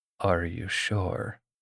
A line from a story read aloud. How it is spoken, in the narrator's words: demanded in a raw voice